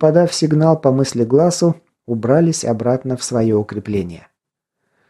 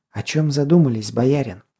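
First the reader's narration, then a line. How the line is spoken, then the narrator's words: Secretive whisper. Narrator (Russian): Шепотом, чтобы никто больше не услышал, спросила она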